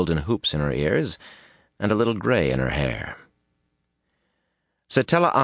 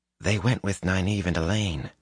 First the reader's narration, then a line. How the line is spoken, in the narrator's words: he whispered, cautiously